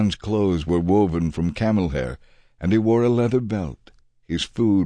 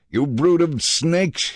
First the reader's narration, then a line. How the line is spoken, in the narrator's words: he exclaimed